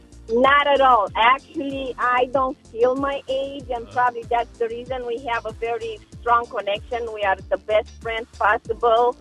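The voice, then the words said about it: Romanian accent. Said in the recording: “Where is your accent from, if you don't mind me asking? ... I am from Romania.”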